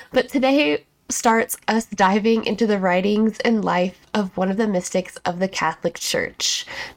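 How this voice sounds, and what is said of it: Slightly stuffy, congested voice. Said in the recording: “if I sound a little stuffy ... we had a crazy dust storm this week, and it's really messed me up”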